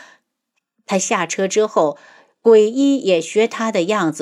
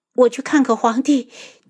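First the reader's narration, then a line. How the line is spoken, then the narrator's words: Crying. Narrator (Chinese): 他忽然就哭了，然后道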